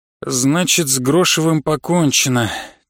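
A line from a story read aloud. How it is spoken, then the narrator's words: Heavy sigh. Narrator (Russian): тяжело вздохнул Жамахов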